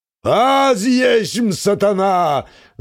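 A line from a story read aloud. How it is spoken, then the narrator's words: Touchy demon bellowing loudly. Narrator (Russian): зычно вопит обидчивый демон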